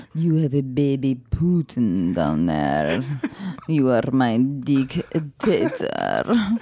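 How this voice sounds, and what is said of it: Put-on Eastern European accent. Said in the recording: “Can you do it in an accent,⟧ please? ... Ooh, you went East European.”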